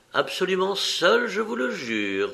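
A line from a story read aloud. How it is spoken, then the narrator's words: Exclaiming. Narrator (French): s'écria Vanina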